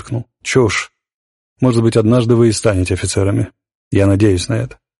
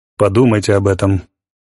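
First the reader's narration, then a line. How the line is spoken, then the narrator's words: Gloomy advice. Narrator (Russian): мрачно посоветовал полковник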